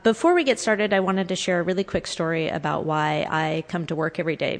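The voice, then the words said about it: Slightly stuffy, congested voice. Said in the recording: “I have a little bit of a cold.”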